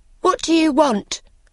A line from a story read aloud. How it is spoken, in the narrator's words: cried the boy